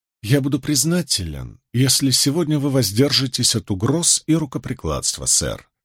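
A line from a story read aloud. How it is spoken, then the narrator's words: Calm. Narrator (Russian): спокойно произнес Мэтью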